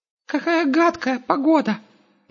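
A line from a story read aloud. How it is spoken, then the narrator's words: Squeaky. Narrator (Russian): пропищал Густав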